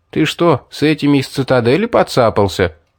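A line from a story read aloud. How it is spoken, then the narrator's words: Boy laughing. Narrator (Russian): рассмеялся мальчишка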